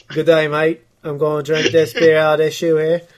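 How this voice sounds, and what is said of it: Put-on Australian accent. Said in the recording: “Classic Australian accent I'm so good at.”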